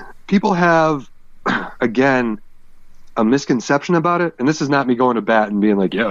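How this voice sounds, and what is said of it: Usual voice. Nothing is said of it.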